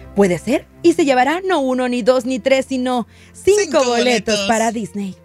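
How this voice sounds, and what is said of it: Put-on Spanish (Spain) accent. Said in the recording (Spanish): “¿por qué estás hablando como española? ... se me están pegando los acentos todos”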